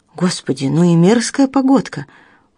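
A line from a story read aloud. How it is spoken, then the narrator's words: Exclaimed. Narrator (Russian): воскликнула доктор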